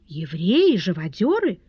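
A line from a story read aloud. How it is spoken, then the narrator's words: Astonished exclamation. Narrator (Russian): в изумлении воскликнула госпожа Перманедер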